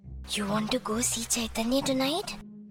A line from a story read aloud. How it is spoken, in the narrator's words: Dhiren whispered